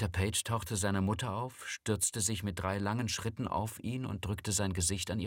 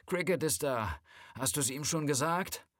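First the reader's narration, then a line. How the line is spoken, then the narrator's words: Calling into the house. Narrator (German): rief sie ins Haus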